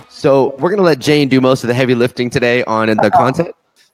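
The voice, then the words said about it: Sick-sounding voice. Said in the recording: “as you can hear from my voice, I am sick.”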